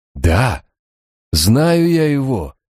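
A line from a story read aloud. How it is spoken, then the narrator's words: Exclaiming. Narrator (Russian): воскликнул Барак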